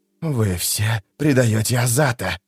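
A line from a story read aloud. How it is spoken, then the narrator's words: Hissing. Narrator (Russian): прошипел Искарал Прыщ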